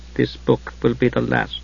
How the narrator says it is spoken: he said quietly

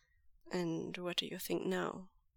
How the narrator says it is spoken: Lanjan asks him gently

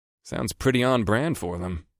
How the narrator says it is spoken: I muttered

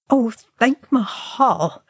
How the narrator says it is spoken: Feely groaned, and he sank back with a wheeze

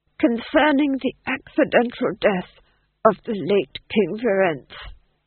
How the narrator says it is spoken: whispered hoarsely

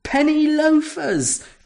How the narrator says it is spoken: cried Surf, pointing gleefully

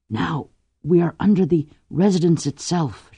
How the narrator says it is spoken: she whispered

